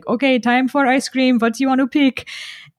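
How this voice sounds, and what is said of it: Imitated Persian accent. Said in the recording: “in his like Persian accent”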